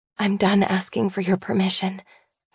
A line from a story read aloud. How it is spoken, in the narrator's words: I whisper